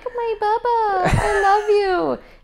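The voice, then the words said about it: Cooing baby voice. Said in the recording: “Baby voice”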